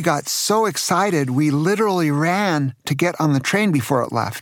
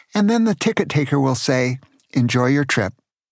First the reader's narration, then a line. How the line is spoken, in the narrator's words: Craig asked